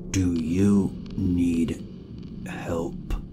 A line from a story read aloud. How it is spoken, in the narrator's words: his voice sounded all wrong, as if he was struggling with each word